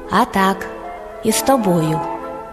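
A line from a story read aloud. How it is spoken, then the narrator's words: Calm. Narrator (Ukrainian): А їжак спокійно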